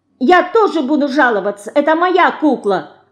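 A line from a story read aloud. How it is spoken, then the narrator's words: Shout. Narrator (Russian): крикнула Динка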